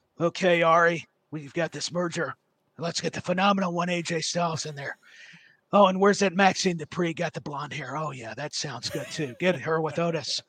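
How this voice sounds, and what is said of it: Vince McMahon impression. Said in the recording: “We've heard so many impersonations of Vince.”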